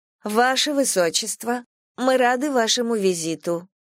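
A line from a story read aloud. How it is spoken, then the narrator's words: Calm, stately announcement. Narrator (Russian): объявила девушка спокойно и величаво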